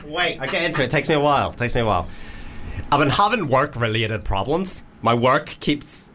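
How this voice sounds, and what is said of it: Put-on Northern Irish accent. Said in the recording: “Any accent particular ... Well, Northern Irish. ... Right, Northern Irish. Northern Irish. ... Straight Northern Irish, not gay. ... It's so hard to not go gay with every accent.”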